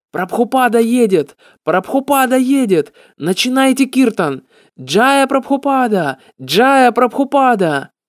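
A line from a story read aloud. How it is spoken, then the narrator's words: Shouting. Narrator (Russian): парень на крыше просто закричал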